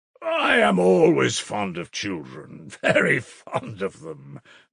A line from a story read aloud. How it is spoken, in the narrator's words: laughed Svidrigaïlov